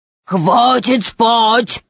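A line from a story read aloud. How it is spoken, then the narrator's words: Thunderous echoing roar. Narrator (Russian): зарычал тролль так громко, что голос его, усиленный эхом, разнесся на километры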